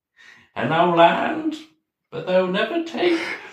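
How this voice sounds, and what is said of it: High-pitched put-on Scottish accent. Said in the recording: “You have the best Scottish accent ... I think it's just a high pitch my talking”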